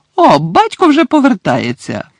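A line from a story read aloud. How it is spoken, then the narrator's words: Sudden exclamation. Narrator (Ukrainian): раптом вигукнула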